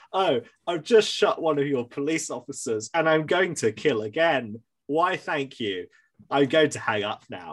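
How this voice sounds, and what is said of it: Very bland, flat quoted voice. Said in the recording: “in this very bland voice”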